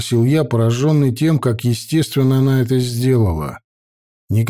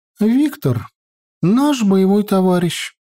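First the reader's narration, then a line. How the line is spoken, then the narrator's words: Sighing young woman. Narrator (Russian): вздохнула девушка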